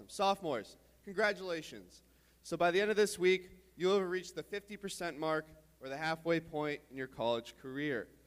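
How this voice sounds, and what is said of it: Strained, worn-out voice. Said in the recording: “My voice is also dead, by the way.”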